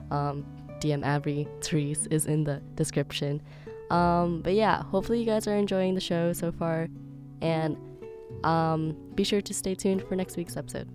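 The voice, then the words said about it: Deep, scratchy sick voice. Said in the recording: “sorry for my voice. It's like really like deep and like I don't know, scratchy. I got sick”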